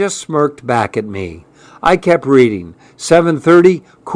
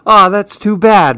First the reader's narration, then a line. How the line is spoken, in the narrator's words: Mom said with a sigh